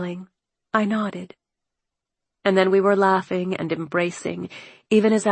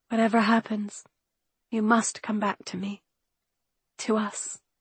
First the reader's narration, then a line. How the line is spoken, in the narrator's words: I whispered into the darkness